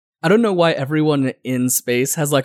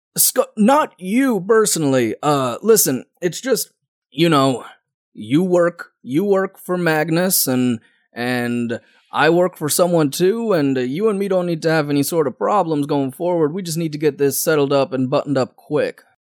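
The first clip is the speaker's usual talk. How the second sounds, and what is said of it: Weird Western accent. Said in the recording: “like a weird Western accent”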